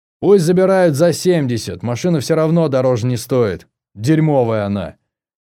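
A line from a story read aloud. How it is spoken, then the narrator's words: Shouted. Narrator (Russian): Карандашов крикнул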